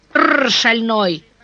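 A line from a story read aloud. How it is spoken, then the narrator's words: Young man shouting at horse. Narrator (Russian): прикрикнул парень на резвого коня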